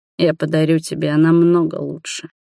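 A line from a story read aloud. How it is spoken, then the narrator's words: Low velvety voice. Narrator (Russian): проговорил низким бархатным голосом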